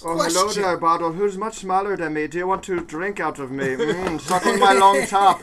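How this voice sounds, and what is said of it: Weird Irish priest accent. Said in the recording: “making bottles have weird ... Irish priest accents.”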